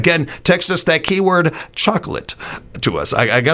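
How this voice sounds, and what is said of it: Usual voice. Nothing is said of it.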